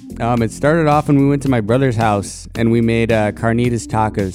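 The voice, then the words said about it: Tired-sounding voice. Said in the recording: “my voice sounds a little bit tired”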